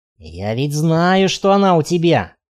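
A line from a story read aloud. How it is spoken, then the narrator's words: Hiss. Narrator (Russian): прошипел он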